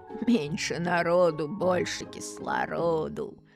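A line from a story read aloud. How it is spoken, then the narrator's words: Silly giggle. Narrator (Russian): глупо хихикнул Егорка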